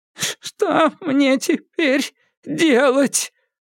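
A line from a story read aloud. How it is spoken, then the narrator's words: Sobbing and hiccuping. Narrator (Russian): Доктор Конвей всхлипывал и икал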